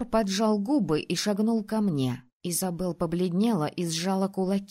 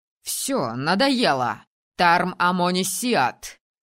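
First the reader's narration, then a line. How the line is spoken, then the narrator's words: Barking, angry. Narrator (Russian): рявкнул маг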